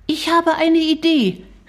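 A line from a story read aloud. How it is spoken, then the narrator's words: Calling out. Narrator (German): rief Shari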